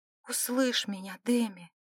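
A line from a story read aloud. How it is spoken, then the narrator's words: Whisper. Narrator (Russian): сказала она шепотом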